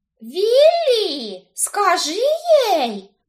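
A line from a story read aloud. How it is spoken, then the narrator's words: Shrill pleading squeal. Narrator (Russian): взвизгнула она, прося защиты от насмешек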